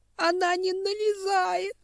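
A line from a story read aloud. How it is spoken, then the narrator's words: Sobbing reply. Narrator (Russian): ответила ветка и опять всхлипнула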